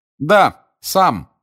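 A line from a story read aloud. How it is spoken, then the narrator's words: Loud, meant to be overheard. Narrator (Russian): сказал громко Гарри, так, чтобы и Каркаров его услышал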